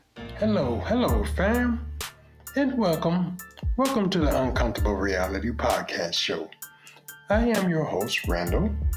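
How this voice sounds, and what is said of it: Put-on formal phone voice. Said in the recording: “he sounds funny. ... That's my phone voice. And we all know about the phone voice,”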